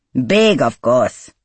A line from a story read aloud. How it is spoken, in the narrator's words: Arvinda scoffed